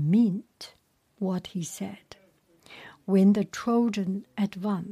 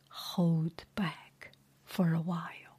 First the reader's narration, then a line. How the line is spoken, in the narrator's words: whispered